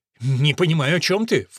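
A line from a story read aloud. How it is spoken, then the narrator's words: Snorting. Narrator (Russian): фыркнул приор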